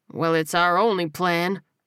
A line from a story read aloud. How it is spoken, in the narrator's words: he said dryly